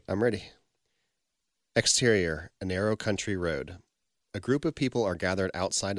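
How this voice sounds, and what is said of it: American accent. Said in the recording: “I'll be reading in an American accent.”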